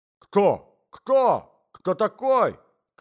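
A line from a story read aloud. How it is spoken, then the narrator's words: Shouting old man. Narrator (Russian): кричал старик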